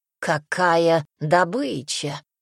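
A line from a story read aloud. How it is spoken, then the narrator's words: Hoarse voice. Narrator (Russian): сиплый голос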